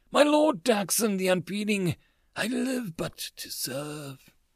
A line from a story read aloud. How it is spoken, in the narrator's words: she moaned